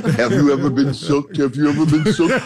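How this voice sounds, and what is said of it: Imitates another person's voice. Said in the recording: “That's my TD Jakes impression.”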